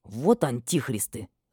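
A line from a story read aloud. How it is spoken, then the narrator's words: Angry spitting. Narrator (Russian): зло выплюнул фамильяр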